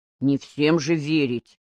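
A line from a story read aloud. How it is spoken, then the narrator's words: Muttered grumble. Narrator (Russian): буркнул Боря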